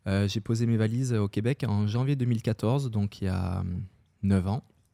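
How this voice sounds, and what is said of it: French accent from France. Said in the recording (French): “moi, je suis français d'origine, on l'entend sûrement à mon accent.”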